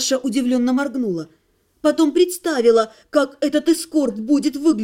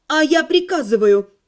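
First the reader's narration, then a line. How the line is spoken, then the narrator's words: Tense impatient barking. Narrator (Russian): От нервного напряжения, теряя терпение, рявкнула Наташа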